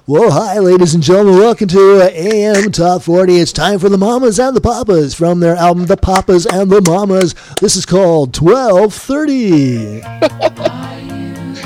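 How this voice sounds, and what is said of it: Radio announcer voice. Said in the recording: “Do radio voice.”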